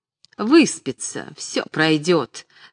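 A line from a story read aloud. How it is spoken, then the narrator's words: Laughing remark. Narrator (Russian): смеясь, заметила Дерезубова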